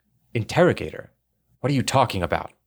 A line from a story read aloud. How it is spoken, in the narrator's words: Campbell said sharply